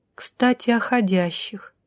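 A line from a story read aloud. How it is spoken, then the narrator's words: Thoughtful, finger tapping lips. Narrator (Russian): задумчиво постучала пальцем по губам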